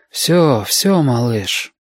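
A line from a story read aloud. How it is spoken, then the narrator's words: Unexpectedly tender. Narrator (Russian): неожиданно ласково проговорил Дин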